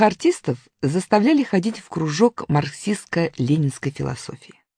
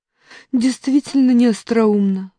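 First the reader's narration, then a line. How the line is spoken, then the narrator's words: Sighing. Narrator (Russian): вздохнула Раневская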